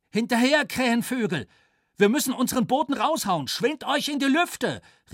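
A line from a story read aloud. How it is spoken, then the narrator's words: Called out. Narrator (German): rief Flieger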